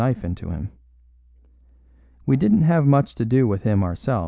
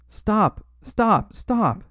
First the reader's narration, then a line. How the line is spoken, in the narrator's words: he cried